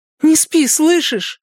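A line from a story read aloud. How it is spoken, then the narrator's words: Exclaim. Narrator (Russian): воскликнула Энея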